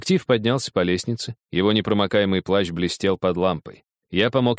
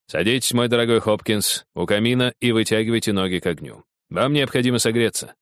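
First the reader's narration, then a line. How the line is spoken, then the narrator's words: Plain. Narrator (Russian): сказал Холмс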